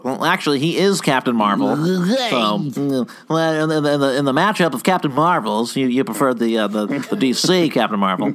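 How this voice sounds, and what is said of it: Professor Frink impression. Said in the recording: “Good Professor Frink you just did ... That's also my Keith Law impression”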